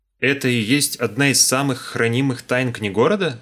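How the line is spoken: Plain question. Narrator (Russian): спросил я

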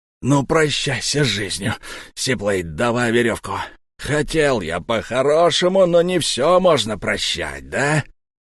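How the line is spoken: Hissing. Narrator (Russian): прошипел волк

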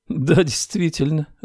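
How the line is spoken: Woman laughing. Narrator (Russian): рассмеялась женщина

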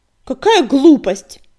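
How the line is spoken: Sudden bark. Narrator (Russian): неожиданно рявкнула синяя звезда

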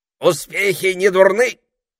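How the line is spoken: Parrot shouting. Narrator (Russian): крикнул попугай

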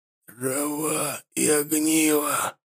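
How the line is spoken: Whisper. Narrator (Russian): послышался шепот Накха

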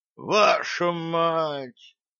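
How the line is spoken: Exhausted mutter. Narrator (Russian): пробормотал гном, обессиленно

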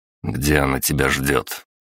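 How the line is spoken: Quiet question. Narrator (Russian): тихо спросил я

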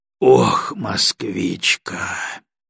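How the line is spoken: Heavy sigh. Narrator (Russian): тяжело вздохнул Егоров

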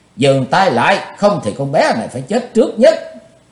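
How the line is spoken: Shrill scream. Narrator (Vietnamese): Tần Mỹ Nương thét lanh lảnh

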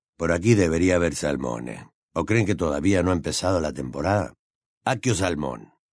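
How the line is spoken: Weary male voice. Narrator (Spanish): una voz masculina que, con un tono de hastío, decía

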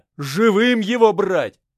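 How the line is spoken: Shouted. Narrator (Russian): прокричал я

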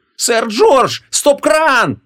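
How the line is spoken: Screaming. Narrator (Russian): завопила Ванесса

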